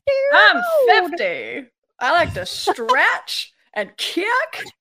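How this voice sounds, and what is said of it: Imitates a comedy sketch character. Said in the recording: “SNL Sally O'Malley... Hey, you're a pretty good impression.”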